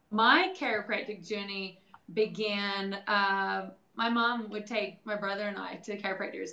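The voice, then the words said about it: New Zealand accent. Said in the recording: “obviously we picked up on an accent there ... I'm from New Zealand”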